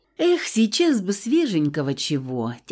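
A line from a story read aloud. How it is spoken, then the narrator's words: Heavy sigh. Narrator (Russian): тяжко вздохнула я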